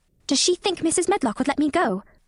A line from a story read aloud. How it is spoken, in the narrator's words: she asked quite anxiously